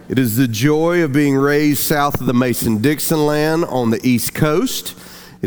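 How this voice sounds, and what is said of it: Southern American accent. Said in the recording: “if you've never heard a southern accent, you're hearing it now.”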